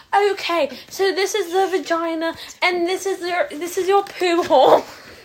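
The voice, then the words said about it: Put-on British accent. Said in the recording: “she's in this terrible British accent.”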